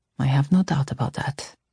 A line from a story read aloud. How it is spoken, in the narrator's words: he said quietly